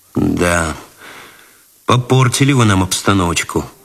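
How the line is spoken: Sighing. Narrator (Russian): вздохнул Цветков

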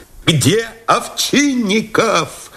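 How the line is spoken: Shout over noise. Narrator (Russian): закричал Новиков, едва разбирая в шумах звук потухающего голоса

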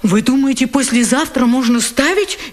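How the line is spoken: Frightened question. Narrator (Russian): испуганно спрашивает автор

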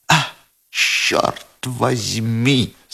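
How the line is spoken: Plain. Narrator (Russian): сказал Ковалев

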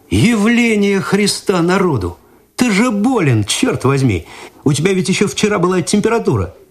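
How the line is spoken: Astonished exclamation. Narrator (Russian): Игорь изумленно посмотрел на друга, потом перевел взгляд на Цветкова и воскликнул

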